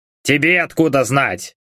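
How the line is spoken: Grumbling. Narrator (Russian): пробурчал Добран

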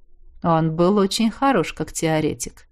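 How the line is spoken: Calm male voice. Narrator (Russian): спокойно подтвердил Марс

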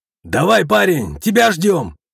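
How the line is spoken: Man shouting. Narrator (Russian): крикнул мужчина

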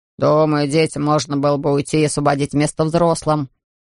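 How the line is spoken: Man grumbling. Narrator (Russian): проворчал какой-то мужчина

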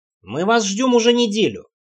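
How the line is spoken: Grumbling. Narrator (Russian): пробурчал Мэтт

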